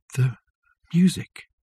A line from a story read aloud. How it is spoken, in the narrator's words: whispered Richard